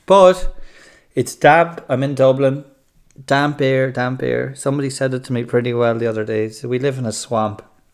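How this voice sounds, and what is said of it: Congested, breathless voice. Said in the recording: “I'm out of breath. I'm kind of sinusy.”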